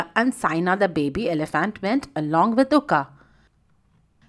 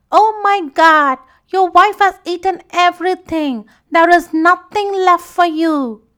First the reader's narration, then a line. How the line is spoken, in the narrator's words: Uka began his acting and exclaimed